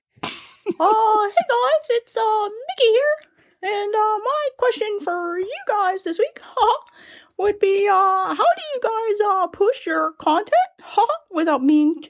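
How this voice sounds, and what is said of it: Mickey Mouse character voice. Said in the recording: “the impression is solid enough ... pretty spot on”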